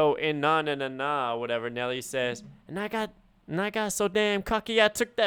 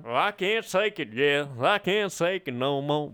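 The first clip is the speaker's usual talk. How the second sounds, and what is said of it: Exaggerated country singing accent. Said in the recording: “Is Tim McGraw in the room? ... That was a crazy accent ... that country shit”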